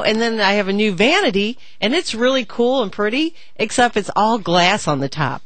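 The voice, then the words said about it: Slips into rural Southern accent. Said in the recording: “you slipped into the coal miner's daughter accent? ... It's really cool and purdy.”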